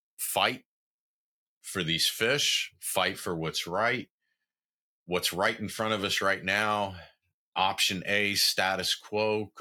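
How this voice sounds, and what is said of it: Tired, worn-out voice. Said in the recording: “I'm kind of gassed right now. Y'all can probably hear it in my voice”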